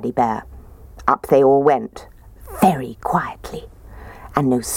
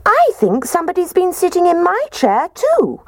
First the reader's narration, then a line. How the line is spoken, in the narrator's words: Baby Bear squeaked